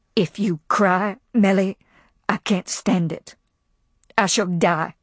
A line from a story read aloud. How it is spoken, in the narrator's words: Kathleen, peering down suddenly at Melanie, said in a low, savage voice